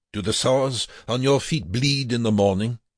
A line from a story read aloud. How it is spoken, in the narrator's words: Wernicke countered angrily